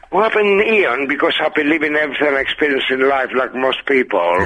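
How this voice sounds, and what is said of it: Greek accent, raspy smoker's voice. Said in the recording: “this boy's been smoking all of his life, ladies and gentlemen. Listen to that filthy cackle ... it's made you sound vaguely Greek as well ... I'm Greek”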